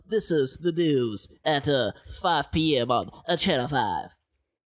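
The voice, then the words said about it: News anchor impression. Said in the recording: “This is me doing a Tom Brokaw.”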